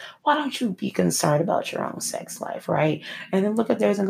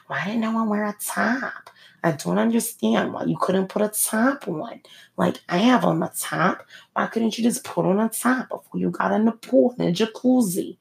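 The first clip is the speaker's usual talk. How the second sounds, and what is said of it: Poorly done put-on accent. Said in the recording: “That's a terrible accent.”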